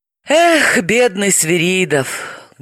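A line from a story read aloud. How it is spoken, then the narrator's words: Sorrowful sigh. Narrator (Russian): горестно вздохнула Далила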